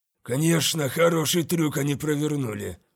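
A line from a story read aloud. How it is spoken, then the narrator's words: Muttered. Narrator (Russian): пробормотал Альвада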